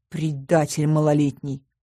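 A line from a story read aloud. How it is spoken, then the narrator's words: Through gritted teeth. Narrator (Russian): процедила сквозь зубы я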